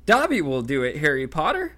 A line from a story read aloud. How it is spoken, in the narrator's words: squeaked Dobby, his tennis ball-sized eyes still swimming in tears